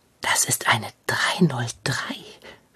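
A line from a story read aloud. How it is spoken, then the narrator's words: Whispered. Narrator (German): flüsterte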